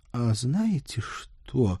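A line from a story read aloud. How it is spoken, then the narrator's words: Nervous sigh. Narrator (Russian): нервно вздохнула Анжела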